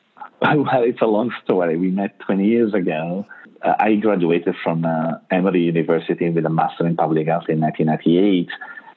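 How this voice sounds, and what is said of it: Italian accent. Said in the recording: “As you can tell from my accent, I'm not from the U.S. I'm Italian.”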